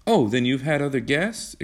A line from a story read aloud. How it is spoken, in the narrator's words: exclaimed John in surprise